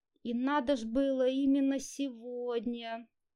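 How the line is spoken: Resigned groan. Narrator (Russian): обреченно простонала Лиза

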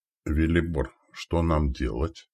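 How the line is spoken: Quiet question. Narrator (Russian): тихо спросил Новик

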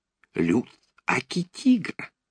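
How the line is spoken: Cheeky, servile whisper. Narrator (Russian): развязно и приниженно зашептал он

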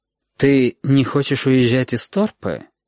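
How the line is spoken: Ingratiating, insinuating question. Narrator (Russian): вкрадчиво спросил Валентин

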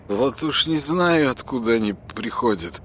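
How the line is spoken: Muttering to himself. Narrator (Russian): бормотал он себе под нос

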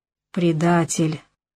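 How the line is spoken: Gasped while collapsing. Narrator (Russian): выдохнул Яныш, падая как подкошенный

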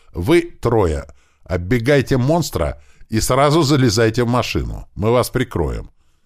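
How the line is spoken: Loud shout over radio. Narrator (Russian): громко крикнул он в рацию

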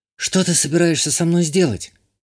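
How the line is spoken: Frightened question. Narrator (Russian): Испуганно спросила Иштания

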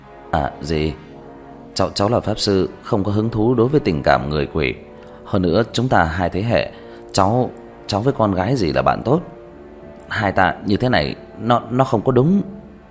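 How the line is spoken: Frightened hurried stammer. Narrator (Vietnamese): Diệp Thiếu Dương vừa nghe bị dọa nhảy dựng, vội vàng lắp bắp

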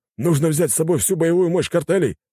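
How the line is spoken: Exclamation. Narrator (Russian): воскликнул кто-то из них

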